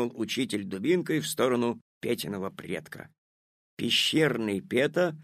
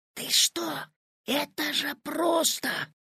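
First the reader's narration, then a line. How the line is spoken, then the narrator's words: Whispering. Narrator (Russian): зашептал Петя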